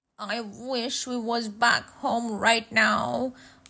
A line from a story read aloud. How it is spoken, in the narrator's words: muttered Henry